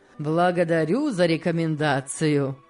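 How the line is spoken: Laughing. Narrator (Russian): рассмеялся Сен-Клер

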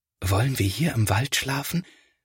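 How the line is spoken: Quiet whisper, not disturbing animals. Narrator (German): flüstert Felix, denn er möchte die Tiere nicht stören

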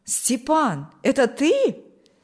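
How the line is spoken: Joyful exclamation. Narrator (Russian): воскликнул Николай обрадованно

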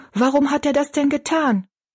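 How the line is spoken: Called out. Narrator (German): rief Betty Ann

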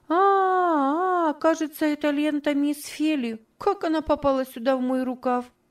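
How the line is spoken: Exclaiming. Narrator (Russian): воскликнула

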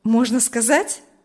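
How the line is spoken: Cheerful, smiling. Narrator (Russian): спросил Урзин, уже весело улыбаясь

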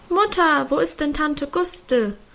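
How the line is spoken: Child's voice calling. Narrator (German): rief eine Kinderstimme hinter ihr

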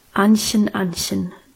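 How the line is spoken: Serious voice. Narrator (German): sagte er mit ernster Stimme

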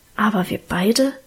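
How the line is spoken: Low whisper. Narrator (German): raunte er

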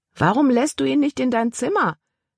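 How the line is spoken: Calling after someone. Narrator (German): rief Caleb ihr nach

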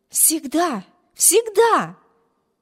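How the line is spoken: Ardent exclamation. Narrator (Russian): горячо воскликнула сестра

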